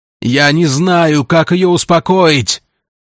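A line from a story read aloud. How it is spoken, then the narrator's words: Yelling in pain. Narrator (Russian): орал Марталин, в которого только что попал очередной тяжелый предмет, чуть не сломав ему ребра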